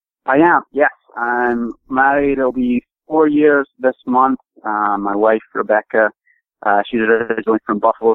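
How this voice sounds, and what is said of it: Non-American accent, somewhat faded. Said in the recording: “Was it the accent? ... she says that I'm losing it ... get the accent back”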